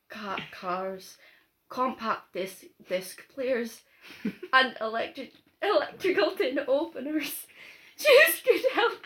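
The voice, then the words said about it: Weak attempt at Scottish accent. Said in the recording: “I didn't say I'm good at a Scottish accent”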